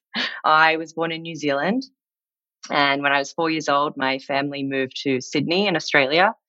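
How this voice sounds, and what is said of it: Non-American, Australian-sounding accent. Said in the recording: “as you can probably tell from my accent, I am not a native to the US.”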